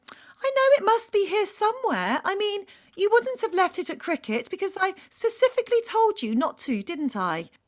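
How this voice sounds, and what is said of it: Patronising tone. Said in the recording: “In what I knew to be a really patronising tone of voice”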